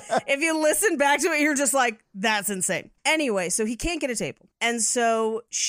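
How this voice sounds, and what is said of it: Usual voice. Nothing is said of it.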